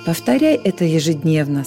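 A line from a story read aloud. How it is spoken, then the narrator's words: Plain. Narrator (Russian): сказал ангел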